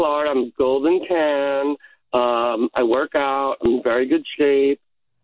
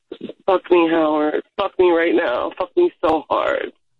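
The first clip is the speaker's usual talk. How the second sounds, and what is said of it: Sultry, seductive voice. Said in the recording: “in your sexiest voice”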